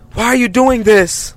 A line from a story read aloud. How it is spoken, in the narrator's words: yelled again